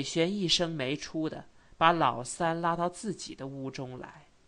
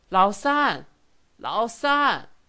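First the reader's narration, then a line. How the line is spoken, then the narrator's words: Weak elderly calling. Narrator (Chinese): 祖母微弱的声音叫着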